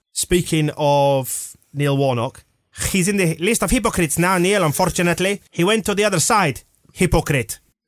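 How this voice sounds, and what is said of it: Exaggerated offensive put-on accent. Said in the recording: “Your most offensive accent. ... My most racist voice possible. ... It's like having him in the room.”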